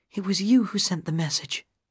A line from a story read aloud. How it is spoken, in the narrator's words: Gale whispered